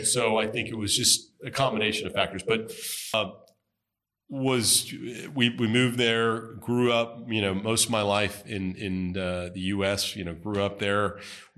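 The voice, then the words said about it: Heavy American accent. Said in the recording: “my heavy American accent”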